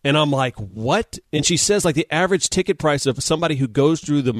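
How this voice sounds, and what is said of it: Usual voice. Nothing is said of it.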